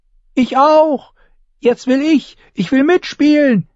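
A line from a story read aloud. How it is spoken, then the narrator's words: Shrieking. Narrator (German): kreischte Rickon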